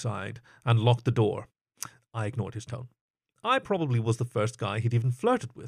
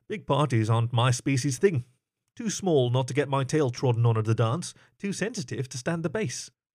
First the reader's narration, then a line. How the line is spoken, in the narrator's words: I squeaked